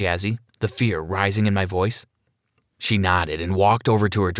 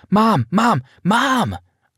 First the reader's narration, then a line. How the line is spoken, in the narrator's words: shouted at the top of my lungs